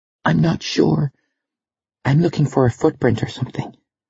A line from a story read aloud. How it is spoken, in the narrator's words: Stephanie fought the giggle down and whispered back